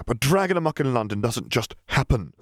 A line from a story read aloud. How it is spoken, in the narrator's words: Lucius exclaimed